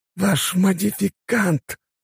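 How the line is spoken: Through gritted teeth. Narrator (Russian): сквозь зубы процедил советник

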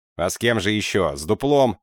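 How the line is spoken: Barking. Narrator (Russian): рявкнул я

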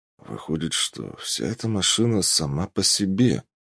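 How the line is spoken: Muttered. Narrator (Russian): пробормотал

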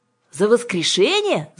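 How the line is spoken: Shouting. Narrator (Russian): закричала Кира

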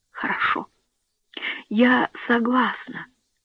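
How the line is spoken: Whisper. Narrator (Russian): прошептала

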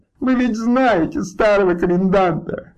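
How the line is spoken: Sobbing. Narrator (Russian): рыдала она

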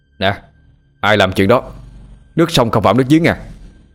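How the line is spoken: Sharp irritated retort. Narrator (Vietnamese): Tâm quay lại gắt

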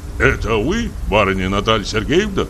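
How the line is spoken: Puzzled question. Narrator (Russian): спросил недоумевающим голосом

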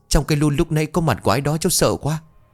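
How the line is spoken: Breathless, very trembling voice. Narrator (Vietnamese): Phong thở gấp mấy hơi nó mới đáp, giọng vô cùng run rẩy

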